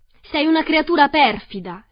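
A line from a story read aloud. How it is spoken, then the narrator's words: Screaming. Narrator (Italian): le urlò Dorothy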